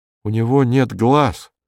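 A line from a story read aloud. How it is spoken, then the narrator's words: Flat even voice. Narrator (Russian): сказал вдруг Полесов ровным голосом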